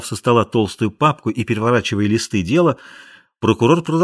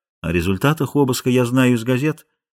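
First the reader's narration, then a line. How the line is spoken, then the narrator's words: Soft interruption. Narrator (Russian): мягко перебил епископ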